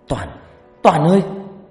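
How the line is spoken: Frozen panicked cry. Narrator (Vietnamese): Loan cứng đơ người, kêu lên thất thanh

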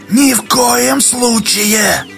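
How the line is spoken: Shouting. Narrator (Russian): крикнул Дола

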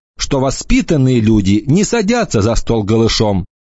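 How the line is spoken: Shouted after someone. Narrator (Russian): крикнула она ему вдогонку

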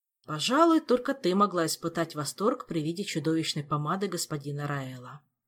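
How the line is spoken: Sighing. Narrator (Russian): вздохнул Шелар

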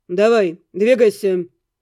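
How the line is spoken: Rough, curt. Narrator (Russian): грубо обратился к гонцу Эддингтон

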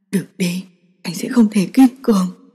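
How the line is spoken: Hoarse male voice. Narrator (Vietnamese): Anh giọng khàn khàn

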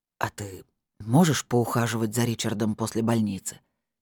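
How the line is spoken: Quiet question. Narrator (Russian): тихо спросил Скороход

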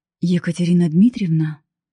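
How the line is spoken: Hoarse, slightly agitated baritone. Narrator (Russian): хриплый, слегка взволнованный баритон

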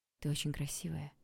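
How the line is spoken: Whisper. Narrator (Russian): прошептал Олег, забыв о самоконтроле

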